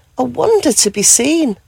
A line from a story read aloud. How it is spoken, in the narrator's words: gasped with joy